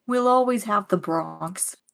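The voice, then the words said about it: Bad put-on Bronx accent. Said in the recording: “my really bad Bronx accent”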